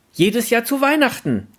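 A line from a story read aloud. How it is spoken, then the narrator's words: Voice calling from crowd. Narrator (German): rief eine Stimme aus der umstehenden Menge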